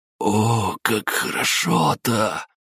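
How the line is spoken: Hoarse, smiling. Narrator (Russian): прохрипел Олег, улыбаясь

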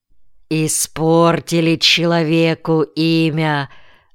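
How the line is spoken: Grumble. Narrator (Russian): проворчал Петр Петрович

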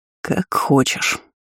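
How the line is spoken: Disappointed, through gritted teeth. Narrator (Russian): разочарованно процедил Эниль

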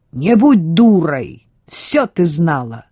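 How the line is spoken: Husband barking. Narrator (Russian): рявкнул ее муж

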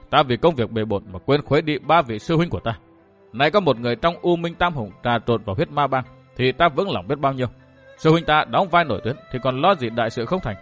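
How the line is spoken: Glad muttering. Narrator (Vietnamese): Chàng mừng rỡ ra mặt, mồm lẩm bẩm

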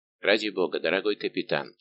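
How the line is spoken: Quiet. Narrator (Russian): тихо сказал Дежавр мушкетеру

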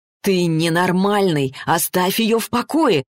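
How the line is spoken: Alarmed exclamation. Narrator (Russian): воскликнул Ричард тревожно

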